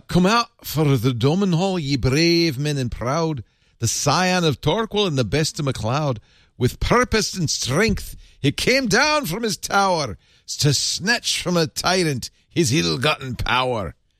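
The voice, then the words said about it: Put-on Scottish accent. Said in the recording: “Can you speak that in Scots?”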